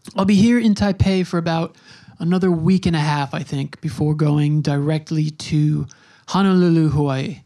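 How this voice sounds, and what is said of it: Hoarse, fading voice. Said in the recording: “Losing my voice a little bit here”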